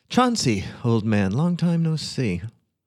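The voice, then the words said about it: Warm, jovial, friendly greeting voice. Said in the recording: “in my most convivial voice.”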